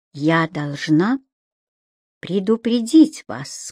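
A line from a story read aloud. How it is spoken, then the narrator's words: Barely audible. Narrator (Russian): сказала она так тихо, что он едва расслышал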